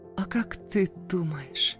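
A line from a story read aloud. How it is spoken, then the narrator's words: Breathed out. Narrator (Russian): выдохнула моя пташка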